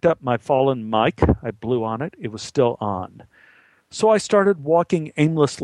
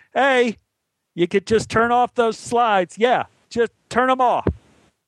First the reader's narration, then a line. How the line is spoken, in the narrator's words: yelled up to the control booth